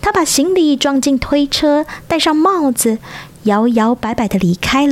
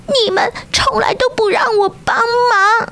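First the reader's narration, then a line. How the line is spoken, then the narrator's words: Tearful whimpering. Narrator (Chinese): 鸭子哭哭啼啼的说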